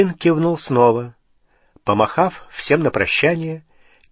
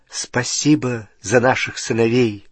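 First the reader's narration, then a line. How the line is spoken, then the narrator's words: Plain. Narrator (Russian): сказала миссис Уизли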